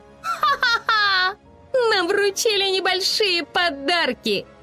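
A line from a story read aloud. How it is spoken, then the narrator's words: Laughing woman. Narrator (Russian): рассмеялась она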